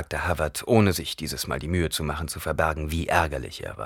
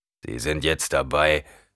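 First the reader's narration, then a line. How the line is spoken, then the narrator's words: Growling. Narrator (German): knurrte Havard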